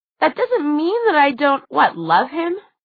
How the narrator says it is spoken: Alec scoffed, raising his voice

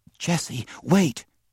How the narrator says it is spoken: she whispered breathlessly, for all at once she had the answer

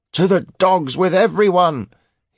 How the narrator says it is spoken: he screeched in a poor attempt to copy Cade's impression

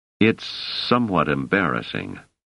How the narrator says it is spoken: Selden paused, then muttered

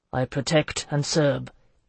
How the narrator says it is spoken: he said flatly

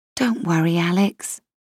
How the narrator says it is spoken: I whispered

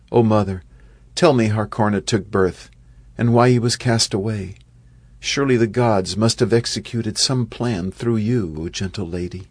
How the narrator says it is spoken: In a trembling voice, his mind clouded by grief, Yudhisthira said

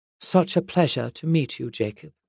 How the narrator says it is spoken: she said in a smooth English accent

